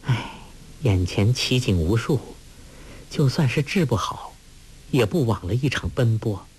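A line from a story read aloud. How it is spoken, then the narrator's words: Sighing. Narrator (Chinese): 黄蓉叹道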